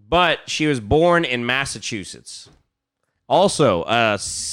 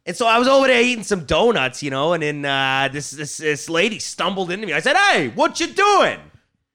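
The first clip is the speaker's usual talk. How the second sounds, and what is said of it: Put-on Boston accent, manly voice. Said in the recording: “You think she's got a Boston accent? ... Give me your best Ann Sullivan. ... You think she's got like a manly?”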